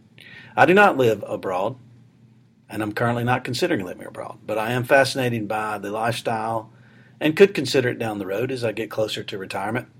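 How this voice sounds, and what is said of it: Southern US accent. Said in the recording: “I am from Alabama, as you might be able to tell from the southern accent.”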